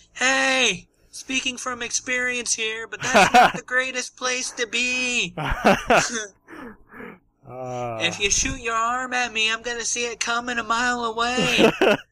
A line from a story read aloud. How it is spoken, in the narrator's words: Izumi yells